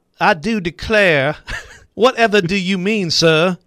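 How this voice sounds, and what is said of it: Exaggerated put-on Southern accent. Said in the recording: “southern accent sounds like he's from Cheeks Creek”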